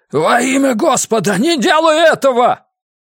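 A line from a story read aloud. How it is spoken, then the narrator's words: Shouted. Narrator (Russian): Лестер Когинс ... прокричал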